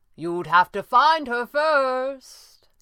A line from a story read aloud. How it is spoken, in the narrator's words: came the taunting reply